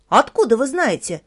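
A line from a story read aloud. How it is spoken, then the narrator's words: Sharp question. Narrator (Russian): резко спросил Санька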